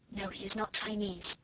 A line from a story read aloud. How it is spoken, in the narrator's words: Sarah whispered back